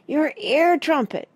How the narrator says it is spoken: yelled Parrot

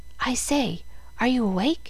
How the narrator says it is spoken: Presently a voice whispered

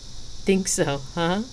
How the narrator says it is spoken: Xena chuckled

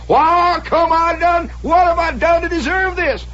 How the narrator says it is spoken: he's hollering

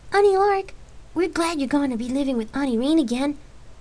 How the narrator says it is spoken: Cole replied happily

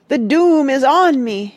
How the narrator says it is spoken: it cried despairingly

